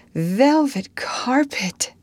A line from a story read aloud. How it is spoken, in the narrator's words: sighed Anne luxuriously